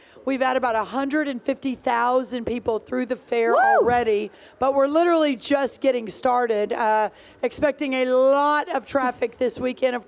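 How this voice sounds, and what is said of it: Hoarse, strained voice. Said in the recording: “I'm losing my voice, which means we've been very busy”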